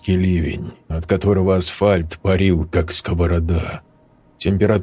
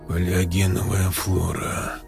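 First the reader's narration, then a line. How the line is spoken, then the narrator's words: Muttered. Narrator (Russian): пробормотал Берг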